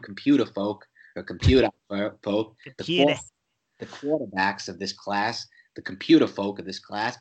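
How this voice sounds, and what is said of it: Bad put-on Boston accent. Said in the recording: “that's a terrible Boston accent. I really shouldn't even try it. It's so bad.”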